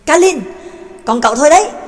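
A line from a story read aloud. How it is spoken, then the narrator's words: Calling out. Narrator (Vietnamese): Gã tóc xanh kêu lên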